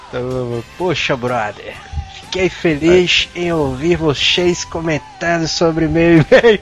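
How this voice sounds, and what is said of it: Exaggerated put-on Carioca accent. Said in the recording (Portuguese): “Então tu tem que ler o e-mail dele arrastando aí, né? Um sotaquezão e tal. ... Sotaque carioca?”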